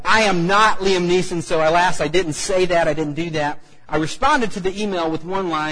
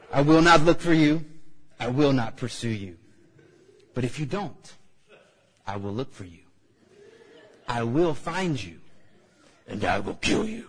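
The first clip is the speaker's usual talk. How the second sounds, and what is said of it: Imitates Liam Neeson, not convincingly. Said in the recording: “that wasn't really a good Liam Neeson impersonation”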